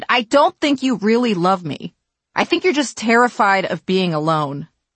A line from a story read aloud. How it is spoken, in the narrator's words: he shouted